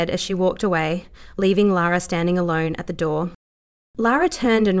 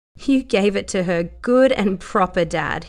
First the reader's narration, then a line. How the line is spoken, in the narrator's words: he said, laughing